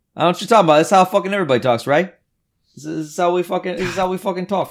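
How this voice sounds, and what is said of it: Put-on New Jersey accent. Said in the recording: “It's so hard not to talk like an asshole ... Just that city vibe ... Jersey accent.”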